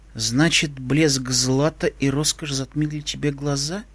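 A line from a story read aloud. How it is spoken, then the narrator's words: Quiet. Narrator (Russian): тихо произнесла она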